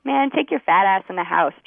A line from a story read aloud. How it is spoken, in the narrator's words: Chuck laughed